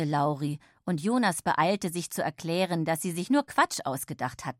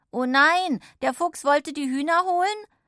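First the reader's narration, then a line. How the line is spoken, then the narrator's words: Forgetting secrecy, calling out. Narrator (German): vergaß, dass sie gerade über etwas sehr Geheimes sprachen und rief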